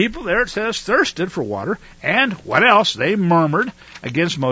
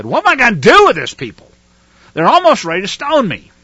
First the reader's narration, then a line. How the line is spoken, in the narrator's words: Moshe cried out to Yahuwah, and he said